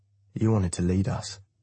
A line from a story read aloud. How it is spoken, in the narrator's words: he says quietly